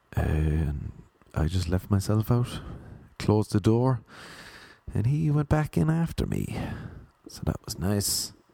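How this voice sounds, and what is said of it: Irish accent. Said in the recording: “Where's that accent from? Where's the accent from?... Ireland... Oh man, I love that accent.”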